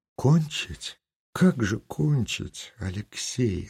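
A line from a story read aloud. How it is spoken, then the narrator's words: Said quietly. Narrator (Russian): сказала она тихо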